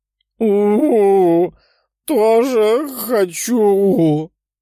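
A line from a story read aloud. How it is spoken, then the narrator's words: Wolf-like howl. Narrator (Russian): по-волчьи взвыла розовокожая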